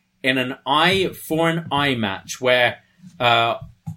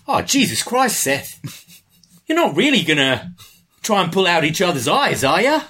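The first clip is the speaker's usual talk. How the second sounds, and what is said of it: Put-on Australian accent. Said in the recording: “our Aussie listeners ... is going to criticize me for my accent here.”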